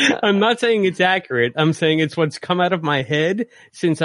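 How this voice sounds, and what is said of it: Usual voice. Nothing is said of it.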